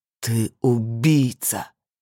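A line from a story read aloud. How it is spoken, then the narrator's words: Growling accusation. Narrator (Russian): прорычал Сергей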